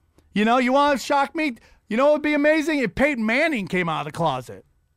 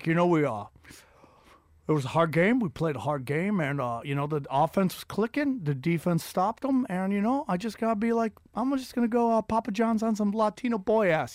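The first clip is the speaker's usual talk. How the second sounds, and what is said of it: Bad Peyton Manning impression. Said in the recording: “That was the worst Peyton Manning impression”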